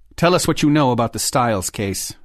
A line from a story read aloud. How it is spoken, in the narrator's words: Lee said in that same hard tone